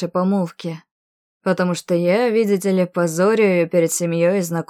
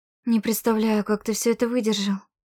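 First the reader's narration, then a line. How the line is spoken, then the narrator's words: Horrified whisper. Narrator (Russian): прошептала в ужасе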